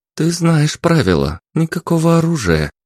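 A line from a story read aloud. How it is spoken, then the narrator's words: Said softly. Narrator (Russian): мягко произнесла Елен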